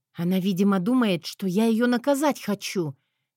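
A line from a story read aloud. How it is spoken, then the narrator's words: Whispered. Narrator (Russian): Я вновь прошептала Мэтью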